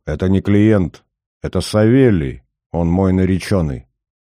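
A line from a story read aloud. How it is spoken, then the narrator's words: Angry voice. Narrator (Russian): Верка сказала гневным голосом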